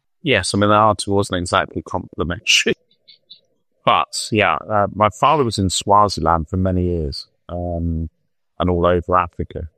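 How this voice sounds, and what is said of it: English accent. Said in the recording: “I went to school in England, hence the English accent.”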